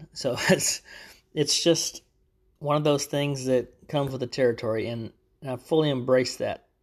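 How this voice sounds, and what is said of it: Texan Southern US accent. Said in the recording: “I actually live in Texas. So you'll hear that in my accent a lot. Especially if I'm tired, it draws out even worse.”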